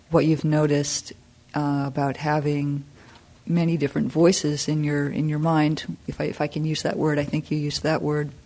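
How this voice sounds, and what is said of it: Strained, fading voice. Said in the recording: “my voice is going a little bit”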